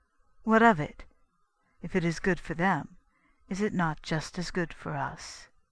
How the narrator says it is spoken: she interrupted coolly

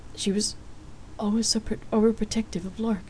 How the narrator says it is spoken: he answered sadly

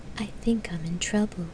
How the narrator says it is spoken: Gabriel murmured

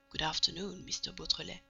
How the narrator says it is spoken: say in a low voice

